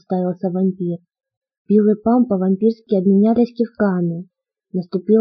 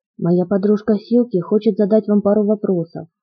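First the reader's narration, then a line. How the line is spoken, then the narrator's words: Plain. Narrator (Russian): сказал Билл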